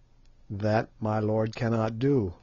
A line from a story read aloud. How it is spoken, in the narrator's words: he answered